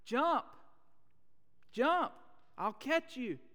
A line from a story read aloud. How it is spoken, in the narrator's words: a voice down below at the bottom shouting